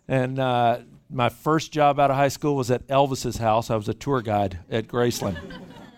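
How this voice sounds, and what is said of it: Southern US Memphis accent. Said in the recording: “You may hear a little bit of accent. ... It's pretty obvious. I'm not from the Bay Area. Grew up in Memphis, Tennessee”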